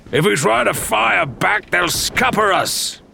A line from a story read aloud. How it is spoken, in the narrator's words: bellowed